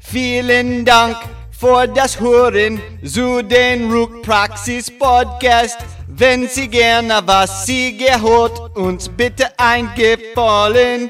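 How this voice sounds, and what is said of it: German spoken in put-on Jamaican accent. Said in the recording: “I thought I might deliver it in German. With a Jamaican accent ... Bump up that Jamaican rhythm, man!”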